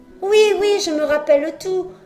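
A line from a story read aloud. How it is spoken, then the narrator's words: Exclaimed. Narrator (French): s'exclama Pinocchio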